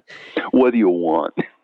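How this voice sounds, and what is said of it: Put-on Brooklyn accent. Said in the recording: “has this kind of Brooklyn accent”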